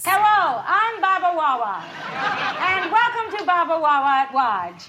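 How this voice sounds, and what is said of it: Comic imitation with speech impediment. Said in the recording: “her noticeable speech impediment... Radner's Baba Wawa impersonation on Saturday Night Live was devastatingly hilarious.”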